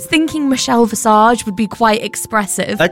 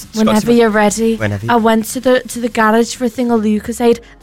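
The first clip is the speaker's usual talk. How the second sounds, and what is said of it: Imitates another person's voice, Liverpool-like accent. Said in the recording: “That was an interesting accent. Didn't know Cheryl Cole was from Liverpool.”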